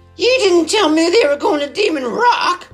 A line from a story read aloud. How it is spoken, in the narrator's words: he yelled